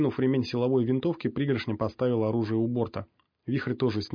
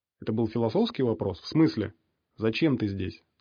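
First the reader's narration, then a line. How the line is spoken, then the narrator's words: Calm clarifying question. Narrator (Russian): спокойно уточнил Ворон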